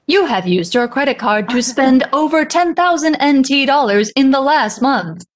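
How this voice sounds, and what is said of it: Robotic voice. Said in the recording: “robot voice”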